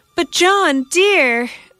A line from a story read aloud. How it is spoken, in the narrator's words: I cried in desperation